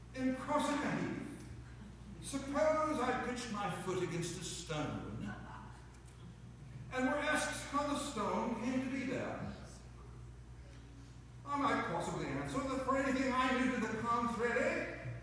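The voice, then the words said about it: Slight put-on British accent. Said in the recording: “I'm going to put a little bit of a British accent with it”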